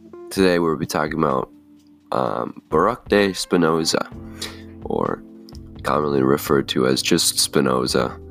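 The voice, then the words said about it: Sick, congested stuffy-nosed voice. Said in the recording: “As you can probably hear in my voice, I am quite sick. ... I have a stuffy nose”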